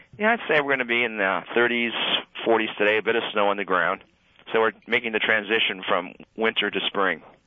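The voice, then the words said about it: Funny-sounding voice, like with a cold. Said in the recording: “I have a bit of a cold, so if my voice sounds a little funny”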